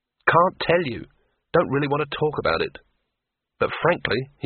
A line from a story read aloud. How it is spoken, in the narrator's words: he sighed